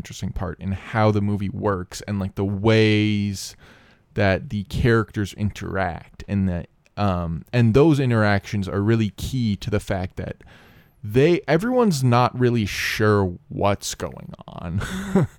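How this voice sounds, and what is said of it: Imitates an online movie critic. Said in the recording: “my impression of a guy who makes videos about why movies with women are bad ... That's a good impression.”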